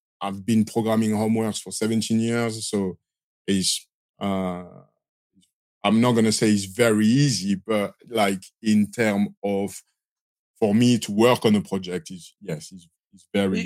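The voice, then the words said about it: Strong French accent. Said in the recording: “I hear the French accent ... I've got a strong French accent, which after 22 years, you know, the accent doesn't want to leave”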